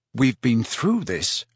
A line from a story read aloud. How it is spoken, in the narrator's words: said Harry crossly